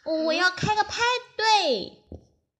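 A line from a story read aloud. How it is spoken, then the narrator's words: Loud excited shout. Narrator (Chinese): 小老鼠大声叫道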